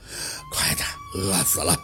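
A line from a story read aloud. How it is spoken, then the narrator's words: Old man laughing. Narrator (Chinese): 老头子一看见餐车就笑了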